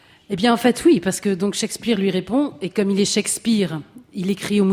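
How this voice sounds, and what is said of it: Usual voice. Nothing is said of it.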